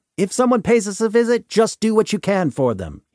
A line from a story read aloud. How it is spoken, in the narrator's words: he shouts